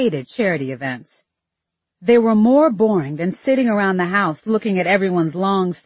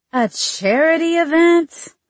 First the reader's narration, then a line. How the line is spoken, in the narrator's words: I whined